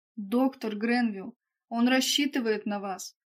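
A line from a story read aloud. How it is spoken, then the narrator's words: Exclaimed. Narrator (Russian): воскликнула Роза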